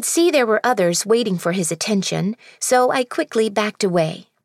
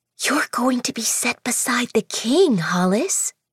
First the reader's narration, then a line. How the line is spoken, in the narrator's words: she murmured